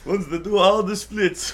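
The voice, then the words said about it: Jean-Claude Van Damme impression. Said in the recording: “that's about as much voice of him ... as I have. ... Sound like Borat.”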